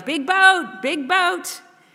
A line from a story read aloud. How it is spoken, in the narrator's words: yelled